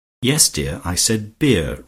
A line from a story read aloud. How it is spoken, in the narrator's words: remarked Robert a little irritably